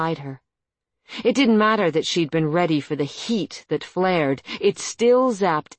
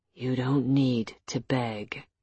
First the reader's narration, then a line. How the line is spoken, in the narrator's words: he said softly